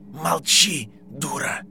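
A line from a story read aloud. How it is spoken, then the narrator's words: Angry hiss. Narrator (Russian): со злостью прошипел голос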